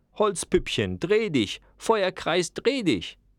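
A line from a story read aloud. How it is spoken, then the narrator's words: Screaming. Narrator (German): schrie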